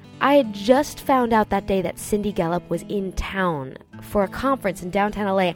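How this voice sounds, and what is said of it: Congested, fuzzy-sounding voice. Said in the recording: “how congested and fuzzy-headed I sound”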